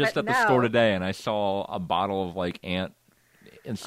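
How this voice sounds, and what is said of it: Usual voice. Nothing is said of it.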